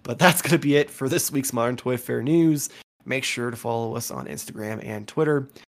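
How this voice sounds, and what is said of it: Tired, strained, hoarse voice. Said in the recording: “I'm tired. I'm losing my voice.”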